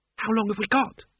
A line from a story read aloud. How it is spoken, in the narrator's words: she said nervously